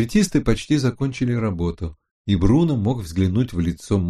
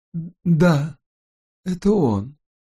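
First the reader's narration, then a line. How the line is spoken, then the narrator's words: Hoarse voice. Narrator (Russian): хрипло проговорила госпожа Форман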